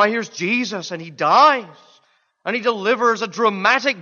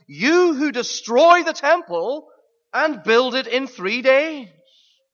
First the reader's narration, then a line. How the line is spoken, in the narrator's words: the Jews had mocked